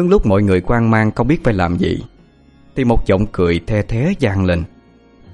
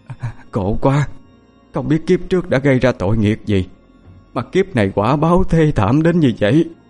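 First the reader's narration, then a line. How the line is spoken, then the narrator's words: Sobbing lament. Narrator (Vietnamese): Có ai đó sụt sùi khóc than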